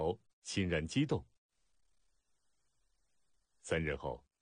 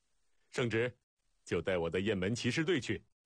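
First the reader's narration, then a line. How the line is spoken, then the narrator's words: Laughing. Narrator (Chinese): 赵雍在旁笑道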